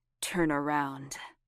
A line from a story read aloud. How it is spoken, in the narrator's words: he said roughly into her ear